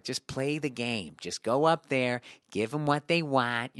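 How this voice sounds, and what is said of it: Imitated Midwestern American accent. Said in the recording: “he's Midwest accent”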